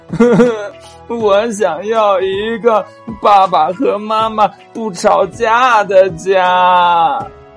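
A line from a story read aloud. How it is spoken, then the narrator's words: Crying while speaking. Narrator (Chinese): 兔宝宝边哭边说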